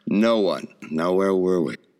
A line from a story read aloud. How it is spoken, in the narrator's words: Harrington snorted and said